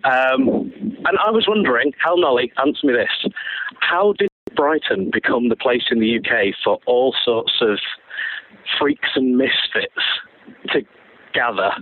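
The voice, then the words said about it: Manchester English accent. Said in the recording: “You might be able to tell from my accent, I'm not actually from around here originally. I'm from Manchester.”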